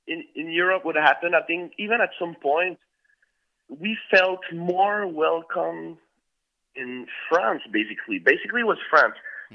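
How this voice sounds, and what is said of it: French-Canadian accent. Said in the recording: “I'm French-Canadian. That's where the accent came from.”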